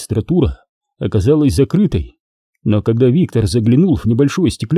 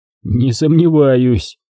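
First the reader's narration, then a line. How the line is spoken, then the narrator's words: Skeptical grunt. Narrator (Russian): хмыкнул Никитин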